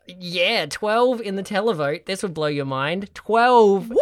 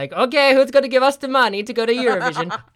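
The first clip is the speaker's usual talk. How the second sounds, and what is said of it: Accidental Italian accent. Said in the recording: “I don't know why they're Italian. That was a weird accidental accent.”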